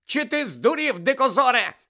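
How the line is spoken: Shriek. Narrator (Ukrainian): заверещала Тонкс

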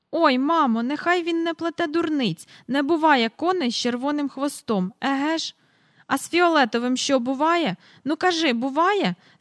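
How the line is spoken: Cried out. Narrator (Ukrainian): скрикнув Майкл

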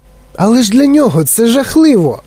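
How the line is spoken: Exclamation. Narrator (Ukrainian): вигукнув Чарлі

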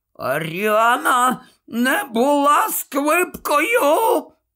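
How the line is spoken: Hoarse, wheezing. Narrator (Ukrainian): хрипів Додж

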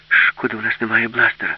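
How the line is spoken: Sighing. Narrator (Ukrainian): зітхнула Аліса

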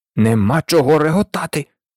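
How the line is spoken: Hissed. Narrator (Ukrainian): засичав Людвік XIV

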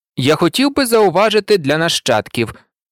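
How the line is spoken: Calm declaration. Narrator (Ukrainian): спокійно виголосив

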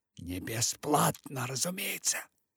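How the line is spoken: Whispered. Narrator (Russian): Он перешел на шепот и добавил

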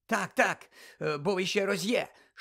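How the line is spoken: Quick exclamation. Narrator (Ukrainian): швидко вигукнув Каркаров

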